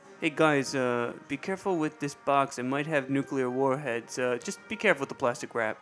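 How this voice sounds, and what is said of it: Bad put-on Russian accent, sounds Lithuanian. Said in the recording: “that accent sounded actually a little bit more Lithuanian than Russian ... my accents are just awful ... My bad accents”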